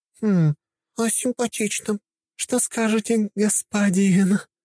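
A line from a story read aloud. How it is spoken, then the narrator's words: Languid sensual voice. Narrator (Russian): Последнее слово она сказала томным эротичным голосом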